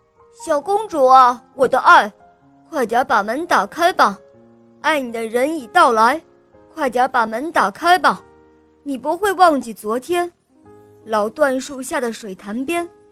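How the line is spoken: Loud shouting. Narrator (Chinese): 大声的喊叫声

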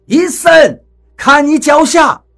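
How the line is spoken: Shouting. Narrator (Chinese): 雷森这么一喊

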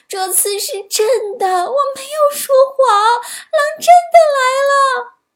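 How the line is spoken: Anxious child crying, running. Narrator (Chinese): 放羊娃着急了，一边往山下跑，一边哭着喊

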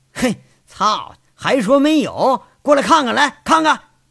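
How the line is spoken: Excited shout. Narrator (Chinese): 杨伟兴奋的喊着

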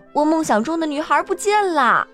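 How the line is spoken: Crying out. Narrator (Chinese): 鲁波特王子叫道

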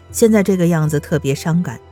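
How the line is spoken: Sighing with feeling. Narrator (Chinese): 秦淮的二叔感叹地说

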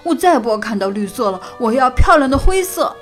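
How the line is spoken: Sudden cry. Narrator (Chinese): 哈瓦尔立刻叫了起来

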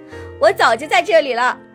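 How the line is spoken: Hedgehogs shouting loudly. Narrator (Chinese): 刺猬和他的妻子总是一下子跳出来，对野兔大喊

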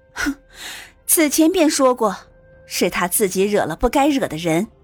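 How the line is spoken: Cold sneer. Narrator (Chinese): 凤玉……只是冷笑道

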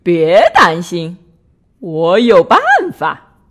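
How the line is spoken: Happy shout. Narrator (Chinese): 弗瑞德高兴的大喊

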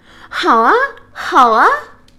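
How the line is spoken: Two voices shouting together. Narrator (Chinese): 宝宝和球球同时喊道

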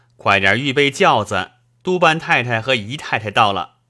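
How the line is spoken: Loud. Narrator (Chinese): 高声说道

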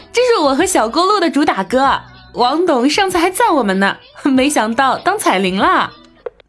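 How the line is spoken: Laughing. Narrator (Chinese): 笑着跟妈妈道

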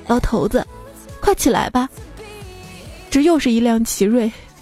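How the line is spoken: Crying. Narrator (Chinese): 我哭着说

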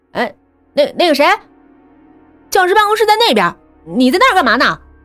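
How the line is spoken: Calling out. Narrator (Chinese): 保安……就指着小唐的方向喊道

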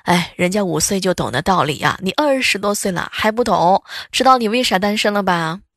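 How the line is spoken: Sighing. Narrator (Chinese): 邻居叹气道

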